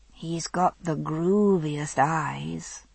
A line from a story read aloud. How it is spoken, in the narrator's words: Brianna said, dreamily